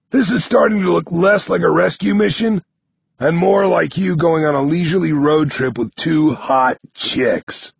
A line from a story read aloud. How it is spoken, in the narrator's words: Nine grumbles